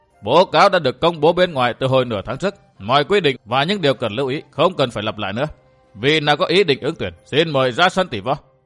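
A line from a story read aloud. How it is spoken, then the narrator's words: Raised voice. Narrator (Vietnamese): cao giọng nói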